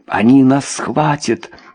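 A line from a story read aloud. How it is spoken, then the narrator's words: Whisper. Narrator (Russian): прошептала Люсинда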